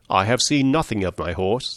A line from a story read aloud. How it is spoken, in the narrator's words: said he